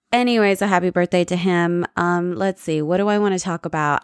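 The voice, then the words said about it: Low-energy, tired-sounding voice. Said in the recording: “I'm low energy. I think you can hear that in my voice.”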